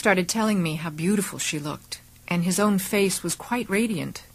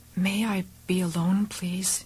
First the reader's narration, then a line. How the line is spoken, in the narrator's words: I whispered